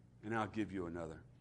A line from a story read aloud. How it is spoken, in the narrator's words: he said, so gently